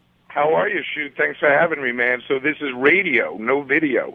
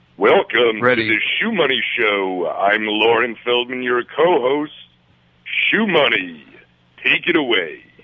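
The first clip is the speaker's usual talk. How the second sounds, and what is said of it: Announcer-style radio voice. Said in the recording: “I just want to use my radio voice then.”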